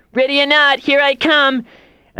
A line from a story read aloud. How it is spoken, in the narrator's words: yell